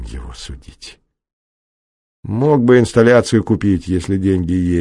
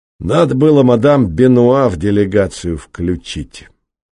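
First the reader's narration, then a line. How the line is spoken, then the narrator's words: Plain. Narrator (Russian): сказал художник-патриот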